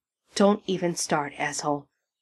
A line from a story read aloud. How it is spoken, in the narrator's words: Sam snarls with a glower